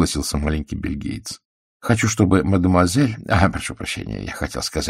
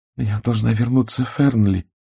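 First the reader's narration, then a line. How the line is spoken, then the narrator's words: Uncertain. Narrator (Russian): неуверенно сказала Урсула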